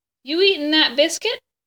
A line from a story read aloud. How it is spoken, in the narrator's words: Bryce called out to Sarah Ruth